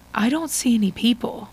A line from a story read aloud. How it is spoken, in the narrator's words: he murmurs softly